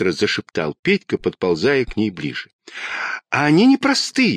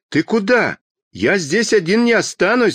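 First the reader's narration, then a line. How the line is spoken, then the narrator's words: Shouted. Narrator (Russian): закричал Петька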